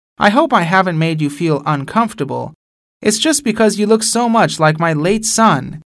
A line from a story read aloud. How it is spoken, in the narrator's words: the woman stopped him and kindly said